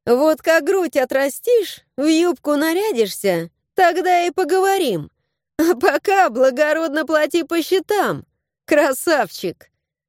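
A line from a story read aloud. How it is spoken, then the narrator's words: Laughing reply. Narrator (Russian): Засмеялась я в ответ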